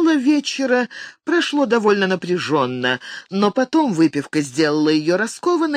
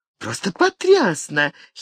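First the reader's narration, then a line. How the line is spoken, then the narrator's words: Giggling. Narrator (Russian): хихикнула Бриджит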